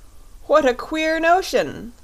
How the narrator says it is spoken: cried the Fox King, beginning to laugh

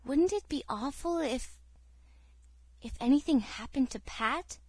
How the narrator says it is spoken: whispered Cecily

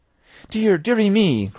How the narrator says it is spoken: cried my mother

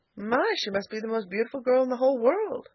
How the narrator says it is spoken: she cried

